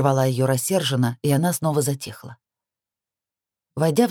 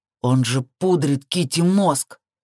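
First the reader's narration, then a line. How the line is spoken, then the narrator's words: Growling. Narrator (Russian): рыкнул Джейсон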